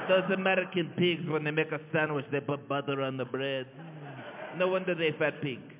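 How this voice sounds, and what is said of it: Mock generic European accent. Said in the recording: “good impression of absolutely every European”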